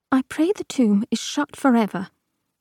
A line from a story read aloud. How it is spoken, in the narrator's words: saying aloud, and you could not bring your voice above a choked whisper